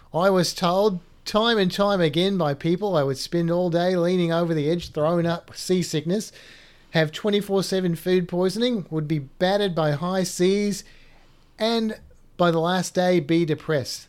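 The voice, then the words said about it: Put-on Australian accent. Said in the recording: “you have to do it in an Australian accent... I will apologize to everybody in Australia before I do this”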